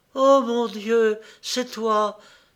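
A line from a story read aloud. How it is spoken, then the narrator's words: Exclaimed. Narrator (French): s'écria Laurence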